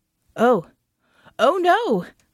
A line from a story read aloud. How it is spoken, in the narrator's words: Norris cried